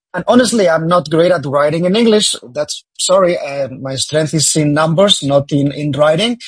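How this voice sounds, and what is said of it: Spanish accent in English. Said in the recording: “as you can hear, I have an accent. I'm Spanish”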